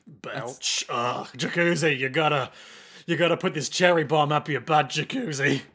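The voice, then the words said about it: Weak character voice, older man. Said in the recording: “That's my Rick, but it's not very good. ... why are you sounding like a 50-year-old man? ... You gotta have more gravel.”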